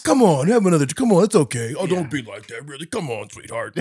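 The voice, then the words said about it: Imitated dude voice. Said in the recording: “I'll do my dude impression,”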